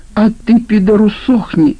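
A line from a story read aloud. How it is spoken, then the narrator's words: Shrieking. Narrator (Russian): визжал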